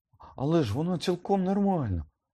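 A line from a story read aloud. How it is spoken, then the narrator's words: Trembling exclamation. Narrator (Ukrainian): вигукнув Гаррі тремтячим голосом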